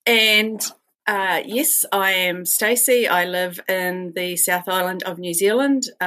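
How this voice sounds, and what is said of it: New Zealand English accent. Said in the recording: “This is my accent, so you'll have to get used to that”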